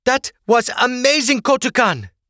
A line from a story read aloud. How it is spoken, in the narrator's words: Igwai exclaimed